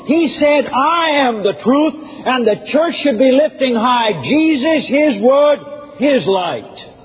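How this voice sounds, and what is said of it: Raised, loud preaching voice. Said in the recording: “raising my voice”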